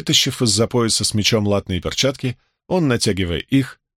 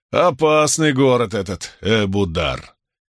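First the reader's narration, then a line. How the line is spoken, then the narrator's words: Booming laughter. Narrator (Russian): Иллианец раскатисто расхохотался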